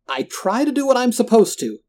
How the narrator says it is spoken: he spat in my face

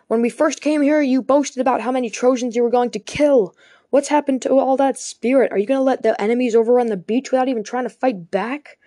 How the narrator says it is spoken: calling out desperately to Zeus

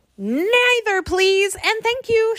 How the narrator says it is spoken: shouted Jack

